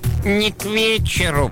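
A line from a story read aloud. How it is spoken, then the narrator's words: Creaky voice. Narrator (Russian): проскрипел средний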